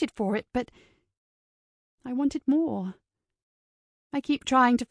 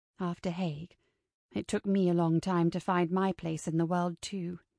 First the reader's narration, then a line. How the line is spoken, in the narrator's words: Perry said softly